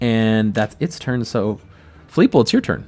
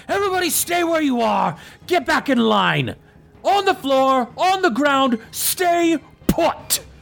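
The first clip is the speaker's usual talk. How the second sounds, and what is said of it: Shouting commanding character voice. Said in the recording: “he's shouting to all the prisoners”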